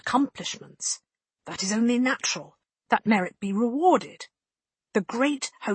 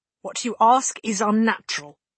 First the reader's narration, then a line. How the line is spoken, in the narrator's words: she tells him sternly, controlling herself